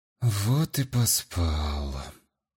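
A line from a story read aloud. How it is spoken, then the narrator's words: Grumble. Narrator (Russian): буркнул я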